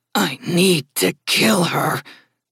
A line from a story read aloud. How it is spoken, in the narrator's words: Haley growled, her voice taking on a different tone